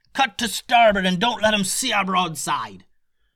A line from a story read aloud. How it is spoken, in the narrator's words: yelled the captain